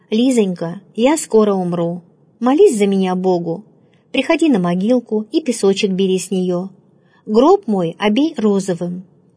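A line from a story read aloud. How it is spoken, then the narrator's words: Tender, affectionate. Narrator (Russian): блаженная, ласково называя ее по имени, сказала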